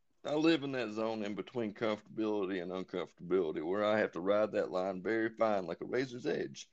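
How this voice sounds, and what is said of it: Speaks with a noticeable accent. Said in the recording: “this fucking accent that I've got”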